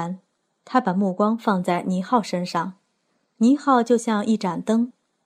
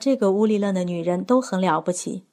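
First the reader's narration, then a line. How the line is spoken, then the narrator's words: Admiring. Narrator (Chinese): 铃木秀男赞叹着说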